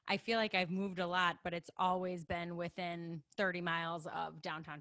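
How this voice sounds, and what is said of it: Chicago-area accent. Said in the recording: “if you can't tell by my accent, I am a lifelong just outside of Chicago resident”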